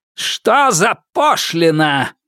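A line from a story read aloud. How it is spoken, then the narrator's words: Growl. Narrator (Russian): прорычал Гераб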